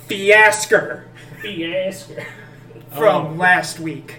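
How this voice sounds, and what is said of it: Put-on country accent. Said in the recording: “He tries his best country accent.”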